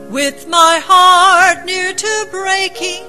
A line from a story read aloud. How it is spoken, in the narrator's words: I cried